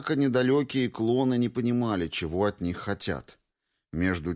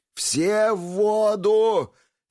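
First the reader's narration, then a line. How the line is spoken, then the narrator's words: Frantic screaming. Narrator (Russian): истошно кричал Пестрецов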